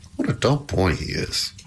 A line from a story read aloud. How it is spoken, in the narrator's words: muttered Pandora